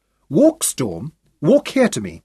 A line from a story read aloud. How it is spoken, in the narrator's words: she cried